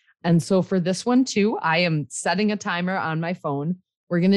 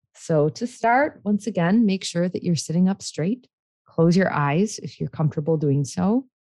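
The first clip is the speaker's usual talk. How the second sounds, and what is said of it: Calm, soothing meditation voice. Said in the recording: “put on my calm meditation voice”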